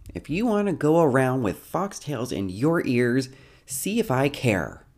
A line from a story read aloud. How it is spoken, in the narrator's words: yells